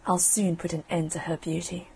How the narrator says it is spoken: she muttered below her breath

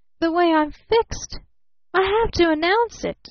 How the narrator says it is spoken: she gasped

